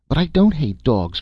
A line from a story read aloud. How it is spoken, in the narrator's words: cried the boy vehemently, his voice breaking with indignant resentment